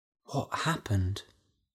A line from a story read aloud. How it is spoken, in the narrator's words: whispered Della